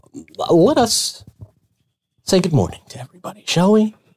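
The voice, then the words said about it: Mock public-radio announcer voice. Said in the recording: “In my NPR voice.”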